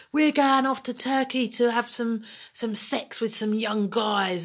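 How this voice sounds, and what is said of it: Put-on Northern Cockney accent. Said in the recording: “They sounded surprisingly Cockney, didn't they, for Northerners? ... that was my Northern Cockney accent ... A Knockney.”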